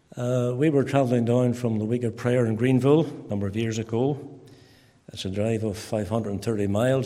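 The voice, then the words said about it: Ballymena accent. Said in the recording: “you still haven't lost your Ballymena accent, in spite of the fact you've been in America for 14 years... I'm very proud of my Ballymena accent.”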